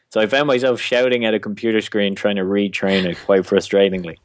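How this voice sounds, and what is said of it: Irish accent. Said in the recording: “I obviously had all these struggles with the Irish accent ... anything I was saying with an Irish accent.”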